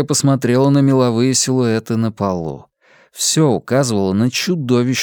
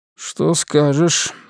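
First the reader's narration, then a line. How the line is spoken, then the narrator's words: Question in undertone. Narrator (Russian): вполголоса спросил Натан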